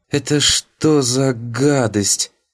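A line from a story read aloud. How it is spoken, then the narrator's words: Forced out, choked. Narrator (Russian): Только и выдавила из себя воспитательница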